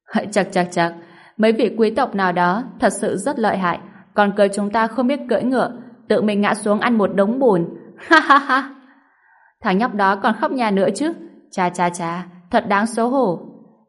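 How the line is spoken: Laughing loudly with delight. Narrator (Vietnamese): Vân Mộc Văn vỗ tay sảng khoái, cô ấy vui sướng cười to

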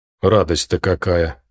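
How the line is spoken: Feigned snort. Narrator (Russian): притворно хмыкнул Том

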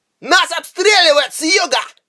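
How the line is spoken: Shouted. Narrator (Russian): крикнул Харнак

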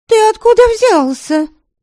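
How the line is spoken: Cried out. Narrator (Russian): вскрикнула Веремила

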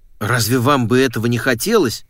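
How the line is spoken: Exclaimed. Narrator (Russian): воскликнул он

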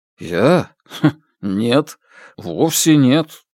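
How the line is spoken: Embarrassed mumble. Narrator (Russian): смущенно пробормотал Ло Фэй

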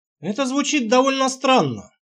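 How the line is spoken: Dry chuckle. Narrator (Russian): хмыкнул я

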